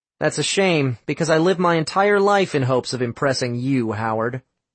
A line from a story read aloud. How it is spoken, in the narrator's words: Sam said